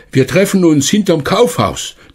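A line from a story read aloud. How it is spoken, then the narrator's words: Calling out. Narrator (German): Er rief noch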